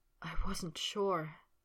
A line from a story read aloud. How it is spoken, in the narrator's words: Potter said, a soft whisper